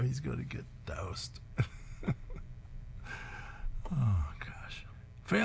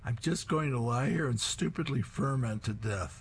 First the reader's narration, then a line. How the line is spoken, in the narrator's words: he's lying on the floor, face down, as he's moaning to Connie